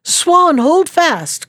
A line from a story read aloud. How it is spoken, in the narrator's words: called out Peter